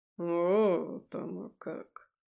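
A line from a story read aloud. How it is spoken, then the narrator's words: Drawn-out. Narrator (Russian): Протянул Харитон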